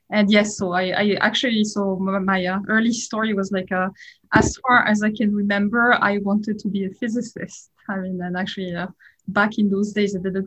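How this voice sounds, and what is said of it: French accent. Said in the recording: “you can certainly tell I'm French from my accent. I'm sure it's kind of hard to hide”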